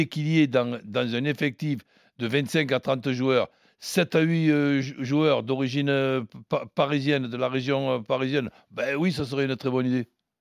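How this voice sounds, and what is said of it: Marseille French accent. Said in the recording (French): “Tu dis ça avec l'accent marseillais ... Un Marseillais”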